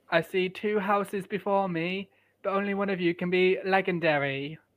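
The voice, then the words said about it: Put-on British accent. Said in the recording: “This is my British accent.”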